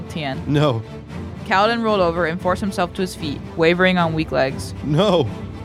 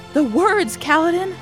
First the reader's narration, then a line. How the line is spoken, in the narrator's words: Rock cried out